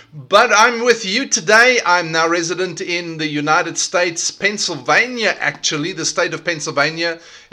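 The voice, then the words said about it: South African accent. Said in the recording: “I have an accent. Can you hear? I have an accent. The accent is South African”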